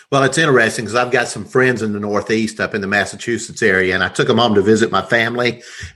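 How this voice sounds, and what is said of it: Southern American accent with twang. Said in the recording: “I love your accent. I love the Southern accent ... I don't have as much as my family, but I still got a twang”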